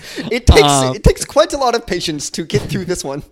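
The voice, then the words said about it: Put-on English accent. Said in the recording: “you also aren't English, which I can clearly tell by your accent ... Oh, definitely English.”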